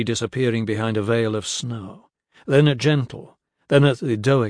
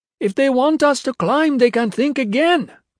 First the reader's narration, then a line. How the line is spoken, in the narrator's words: Pye yelled through the wind